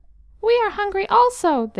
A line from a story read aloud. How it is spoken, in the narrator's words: they cried